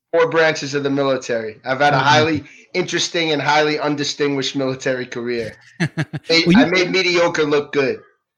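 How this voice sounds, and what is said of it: New York Bronx accent. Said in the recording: “you sound more like you're from the Bronx ... I was born and raised in New York ... and I never lost the accent.”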